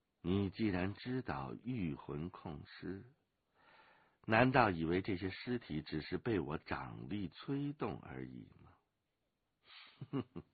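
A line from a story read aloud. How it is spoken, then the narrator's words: Cool, indifferent. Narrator (Chinese): 那黑衣人淡淡的说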